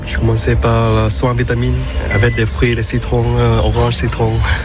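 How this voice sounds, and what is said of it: Delightful foreign accent in French. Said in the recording (French): “ce délicieux accent du masseur”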